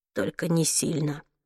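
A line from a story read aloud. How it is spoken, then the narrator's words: Mumble. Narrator (Russian): пробормотал он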